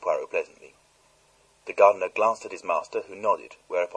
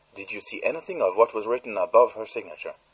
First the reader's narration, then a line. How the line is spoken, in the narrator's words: asked Poirot sharply